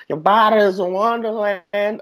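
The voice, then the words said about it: Sung imitation of another person's voice. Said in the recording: “That was sexy, a perfect man. Impersonation. ... That was a perfect impersonation.”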